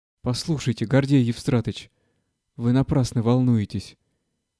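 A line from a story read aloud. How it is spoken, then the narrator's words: Soft. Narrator (Russian): мягко заговорил Головинский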